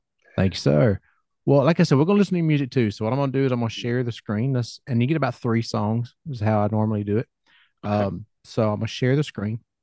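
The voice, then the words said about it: Southern US accent. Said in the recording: “here in the South, you hear my accent, it's not going to change. I talk like this everywhere ... I think it's a great accent. You have a wonderful voice”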